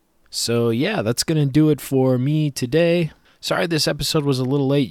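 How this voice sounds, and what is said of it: Hoarse, strained voice. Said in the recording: “You might be able to tell I'm losing my voice”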